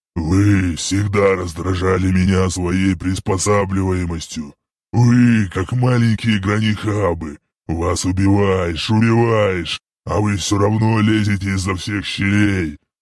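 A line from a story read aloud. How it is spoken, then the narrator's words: Demonic growl. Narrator (Russian): Прорычал этот демон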